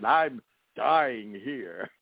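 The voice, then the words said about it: Imitates another person's voice. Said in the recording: “my best Jack Nicholson impression.”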